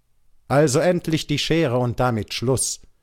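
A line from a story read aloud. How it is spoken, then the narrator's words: Caravan guide shouting. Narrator (German): rief der Araberführer unserer Karawane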